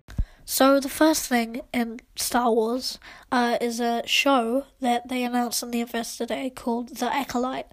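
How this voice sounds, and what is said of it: Voice slightly altered by a cold. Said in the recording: “I'm a little bit sick, so if you hear my voice is a bit different, then just blame it on a cold.”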